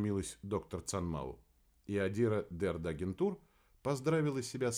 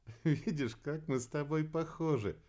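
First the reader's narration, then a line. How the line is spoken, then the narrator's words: Laughing. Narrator (Russian): рассмеялась Кира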